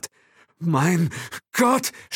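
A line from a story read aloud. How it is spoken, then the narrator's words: Stammering. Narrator (German): stammelte Will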